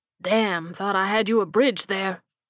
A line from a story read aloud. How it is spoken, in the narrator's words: he grunted